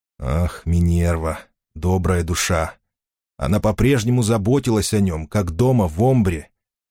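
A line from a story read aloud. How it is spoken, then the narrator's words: Sighing. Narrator (Russian): Финолео вздохнул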